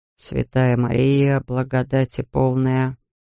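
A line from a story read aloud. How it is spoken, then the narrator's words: Muttered. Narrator (Russian): пробормотал он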